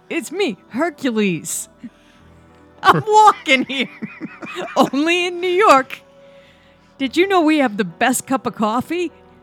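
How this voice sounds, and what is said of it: Put-on New York accent. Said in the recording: “You could have just done a regular voice. We could have done these voices sans accent.”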